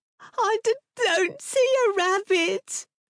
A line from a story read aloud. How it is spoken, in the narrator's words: George whined between sobs